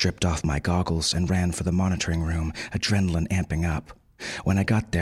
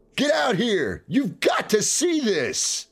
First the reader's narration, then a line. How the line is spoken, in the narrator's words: Jack shouted